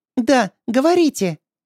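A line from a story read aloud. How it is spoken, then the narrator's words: Squeaky voice. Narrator (Russian): ответил Павел писклявым голосом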